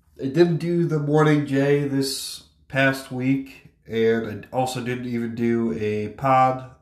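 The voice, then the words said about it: Sick-sounding voice. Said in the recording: “I've been very sick. Maybe you can hear that in my voice.”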